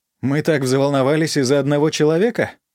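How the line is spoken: Joyless laugh. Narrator (Russian): Капитан Тага рассмеялась так же невесело

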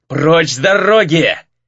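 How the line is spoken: Furious male roar. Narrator (Russian): яростно взревел мужчина

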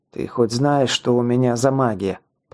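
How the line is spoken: Muttered. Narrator (Russian): пробормотал я

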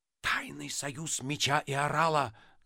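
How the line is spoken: Ominous whisper. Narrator (Russian): зловеще прошептал Остап

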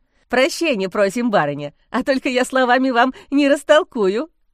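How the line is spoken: Chuckling. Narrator (Russian): хохотнул Андрюшка

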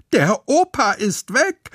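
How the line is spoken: Shout. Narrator (German): schreit Lotte

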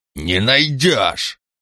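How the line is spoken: Barked. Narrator (Russian): рявкнул Ланкао

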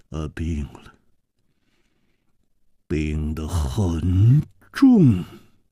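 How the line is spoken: Heavy sad sigh. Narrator (Chinese): 左青侯沉重地叹息了一声，黯然说

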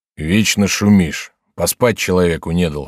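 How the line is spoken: Gloomy yawning speech. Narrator (Russian): сказал он, мрачно зевая

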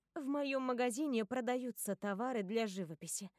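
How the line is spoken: Calm. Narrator (Russian): говорю я по-прежнему спокойным тоном

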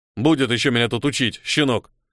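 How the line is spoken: Grumbling. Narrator (Russian): проворчал Крим

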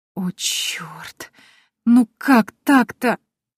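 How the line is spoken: Moaning. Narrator (Russian): застонала

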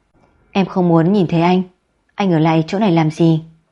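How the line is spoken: Calm voice turned angry. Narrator (Vietnamese): Người luôn luôn bình tĩnh, thế nhưng bây giờ trong giọng nói lại có vài phần tức giận

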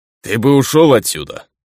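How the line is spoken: Rough. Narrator (Russian): грубо произнес он

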